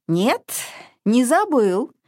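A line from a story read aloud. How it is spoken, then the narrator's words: Objecting. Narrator (Russian): возразил Гномыч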